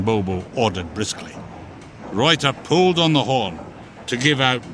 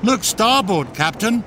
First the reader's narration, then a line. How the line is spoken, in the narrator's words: she called out